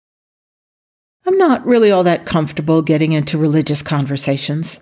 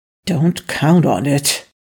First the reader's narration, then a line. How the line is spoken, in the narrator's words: Daniel muttered